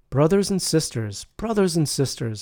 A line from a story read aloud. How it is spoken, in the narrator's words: exclaimed